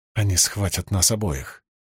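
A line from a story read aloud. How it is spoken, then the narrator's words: Nervous whisper. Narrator (Russian): нервно прошептал Кисман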